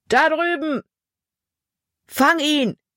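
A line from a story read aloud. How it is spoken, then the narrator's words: Shouted call. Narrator (German): rief ein anderer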